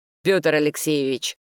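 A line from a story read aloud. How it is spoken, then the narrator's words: Barking. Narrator (Russian): рявкнул я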